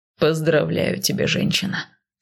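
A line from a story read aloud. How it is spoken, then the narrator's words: Calm explanation. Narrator (Russian): Спокойно объяснил Кайл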